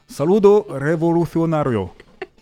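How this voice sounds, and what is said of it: Put-on foreign accent. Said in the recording (French): “Et je peux le faire avec l'accent en plus.”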